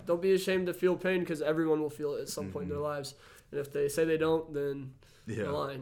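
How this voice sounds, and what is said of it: Slightly hoarse, tired voice. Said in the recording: “my voice is a little gone, we're a little tired”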